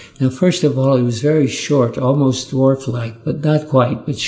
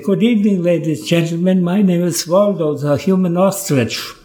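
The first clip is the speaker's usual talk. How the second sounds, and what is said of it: Viennese accent. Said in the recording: “a Viennese accent”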